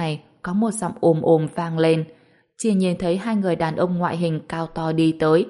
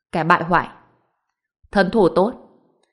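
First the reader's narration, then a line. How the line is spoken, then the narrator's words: Cold laugh, then speaking. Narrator (Vietnamese): Hàn Đông cười lạnh lùng một tiếng, nói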